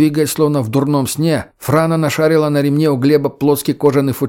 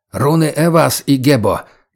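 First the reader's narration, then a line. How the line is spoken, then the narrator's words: Unintelligible hoarse rasp. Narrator (Russian): Непонятно прохрипел егерь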